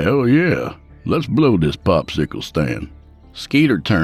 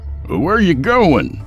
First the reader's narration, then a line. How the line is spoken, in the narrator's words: Yancey hollered, running after him